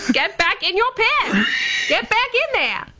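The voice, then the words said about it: Put-on transatlantic accent. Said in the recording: “You developed a transatlantic accent there.”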